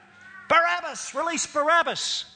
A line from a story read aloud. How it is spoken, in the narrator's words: they yelled out